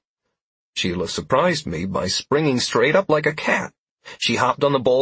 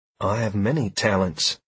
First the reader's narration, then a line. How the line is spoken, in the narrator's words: she said dryly